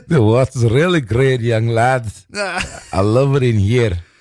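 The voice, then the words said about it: Put-on Scottish accent. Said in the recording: “I honestly think I'm good at doing a Scottish accent... That's probably my best accent”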